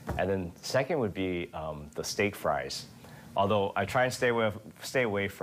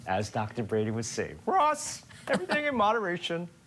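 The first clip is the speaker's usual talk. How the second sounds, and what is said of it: Imitates another person's voice. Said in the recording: “You and your Dr. Brandy impersonations ... that's not what I sound like”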